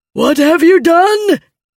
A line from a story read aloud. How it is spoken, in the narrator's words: Nickley bellowed